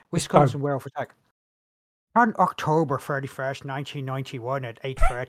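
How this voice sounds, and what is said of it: Put-on Irish-sounding accent. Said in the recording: “what accent am I fucking doing? ... That is more Irish than... ... I am doing it purposely.”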